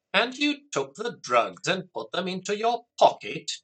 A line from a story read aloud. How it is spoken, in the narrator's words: Jack said angrily